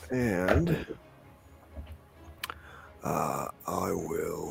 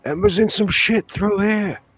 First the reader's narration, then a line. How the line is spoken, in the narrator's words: I'm going to yell